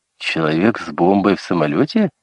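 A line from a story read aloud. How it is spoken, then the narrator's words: Laughing. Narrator (Russian): засмеялась Мидж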